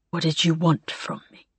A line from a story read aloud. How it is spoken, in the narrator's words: he asked softly